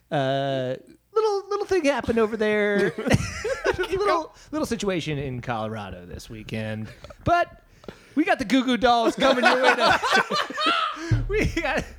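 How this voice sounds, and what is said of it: Radio DJ voice. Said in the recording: “describe what happens as a radio DJ ... radio DJ voice”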